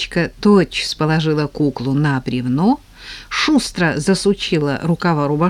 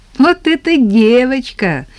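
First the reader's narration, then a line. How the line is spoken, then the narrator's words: Laughing. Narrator (Russian): засмеялась Тата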